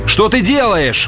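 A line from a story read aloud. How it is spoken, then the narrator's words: Shouting. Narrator (Russian): закричал Олхэм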